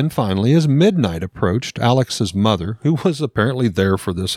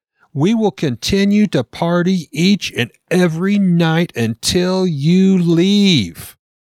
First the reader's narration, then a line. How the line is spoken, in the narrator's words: He becomes very angry and Alex screamed